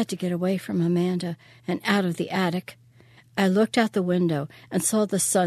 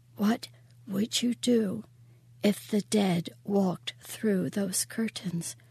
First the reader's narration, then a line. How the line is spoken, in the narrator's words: She whispered in my ear